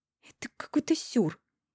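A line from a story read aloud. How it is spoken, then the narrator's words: Angry hissing taunt. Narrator (Russian): Злобно шиплю и дразню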